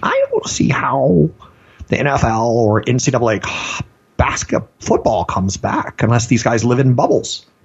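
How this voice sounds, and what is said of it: Impression of Fauci. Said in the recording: “my best Fauci impression”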